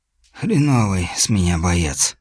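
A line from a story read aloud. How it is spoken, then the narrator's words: Hoarse wheeze. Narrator (Russian): просипел Хантер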